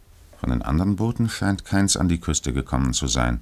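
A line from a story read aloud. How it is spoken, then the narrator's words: Muffled voice. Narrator (German): meinte der Maschinist mit gedämpfter Stimme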